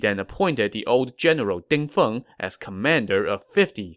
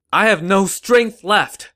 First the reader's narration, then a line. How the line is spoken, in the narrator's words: Zhuge Zhan shouted